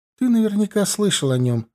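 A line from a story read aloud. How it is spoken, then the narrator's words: Sighing. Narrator (Russian): вздохнула Эрли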